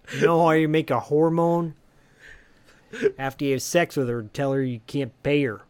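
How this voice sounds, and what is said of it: Chicago accent. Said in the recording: “I love your fucking Chicago accent.”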